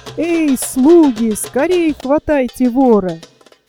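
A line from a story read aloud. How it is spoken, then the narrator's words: Shout. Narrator (Russian): Див закричал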